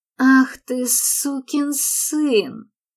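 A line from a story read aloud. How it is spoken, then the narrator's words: Hissed. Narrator (Russian): прошипел Паркер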